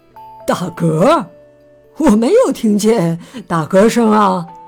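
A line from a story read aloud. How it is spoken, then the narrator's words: Amused. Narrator (Chinese): 熊爸爸笑了，他说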